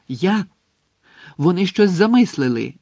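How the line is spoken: Tense exclamation. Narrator (Ukrainian): вигукнув, мимоволі стискаючи кулаки

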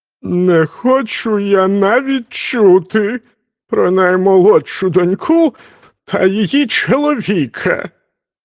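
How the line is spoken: Groaning king. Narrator (Ukrainian): простогнав цар

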